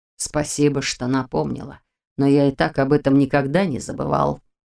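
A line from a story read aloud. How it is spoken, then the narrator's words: Cold reply. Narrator (Russian): холодно отозвался он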